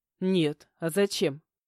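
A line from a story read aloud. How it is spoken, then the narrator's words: Condescending snort. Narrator (Russian): Снисходительно фыркнул Матвей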